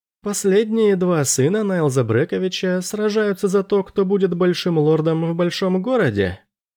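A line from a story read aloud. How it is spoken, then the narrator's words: Laughing. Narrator (Russian): Он рассмеялся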